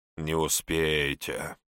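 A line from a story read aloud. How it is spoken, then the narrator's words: Smirking grunt. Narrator (Russian): хмыкнул хозяин Сицилии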